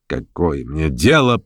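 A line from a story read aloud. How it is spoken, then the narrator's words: Grumbling. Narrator (Russian): Шатов насупился и, проворчав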